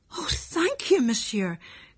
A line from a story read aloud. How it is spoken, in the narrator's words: cried Lucien